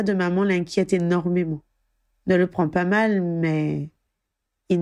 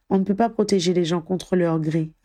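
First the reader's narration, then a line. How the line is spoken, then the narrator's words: Sad. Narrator (French): analysa tristement Harry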